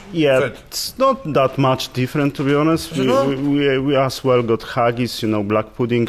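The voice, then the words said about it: Noticeable foreign accent. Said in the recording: “I detect an accent.”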